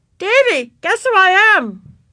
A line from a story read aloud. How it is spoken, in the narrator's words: yelled Ramona